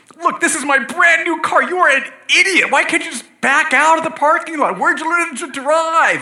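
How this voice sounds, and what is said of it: Angry yelling. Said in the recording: “you start clamoring, which means yelling, basically... So you're yelling.”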